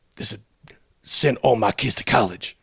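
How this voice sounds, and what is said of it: Bad imitation of another person's voice. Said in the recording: “really bad Danny Glover impersonation.”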